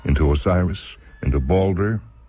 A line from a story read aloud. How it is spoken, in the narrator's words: And he chuckled and asked